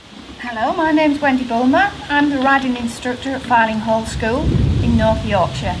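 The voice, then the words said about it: Thick English accent. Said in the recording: “she has a very thick accent. She's from England.”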